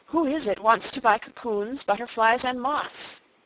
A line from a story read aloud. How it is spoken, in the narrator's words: she panted